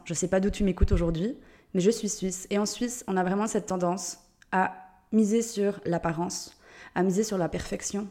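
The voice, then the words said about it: Swiss French accent. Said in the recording (French): “Je suis suisse, d'où l'accent.”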